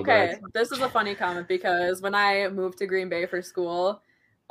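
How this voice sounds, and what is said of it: Minnesota accent, marked O vowels. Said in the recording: “It's because of your accent, man... Minnesota... my O's”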